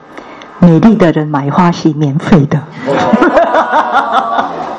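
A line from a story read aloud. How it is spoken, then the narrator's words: Smiling. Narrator (Chinese): 笑着说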